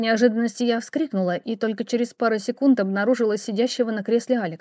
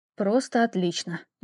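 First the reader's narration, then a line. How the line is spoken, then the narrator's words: Displeased mutter. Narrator (Russian): недовольно пробормотала я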